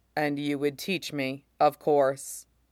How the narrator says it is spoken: he says flatly

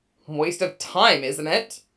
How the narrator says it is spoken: Zoro snaps, growling the words

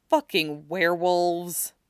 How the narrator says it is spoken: To himself, he just shook his head again and muttered

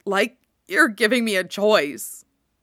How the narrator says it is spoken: Kurama manages, and his voice breaks

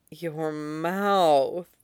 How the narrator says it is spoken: Zhao Xingchen says on a sigh

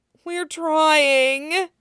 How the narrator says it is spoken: moaned the servant

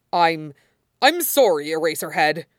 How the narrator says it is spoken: he sputtered

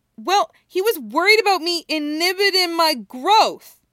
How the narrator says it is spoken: Naruto snaps right back

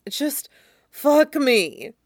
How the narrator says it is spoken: he gasps

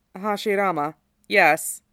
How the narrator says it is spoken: The kid inclines his head, weirdly formal for a brat, and says blandly

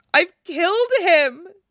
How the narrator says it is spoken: she wails

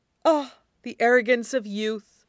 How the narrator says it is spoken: Zephyrin sighs

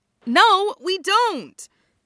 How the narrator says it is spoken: Shoyo exclaims

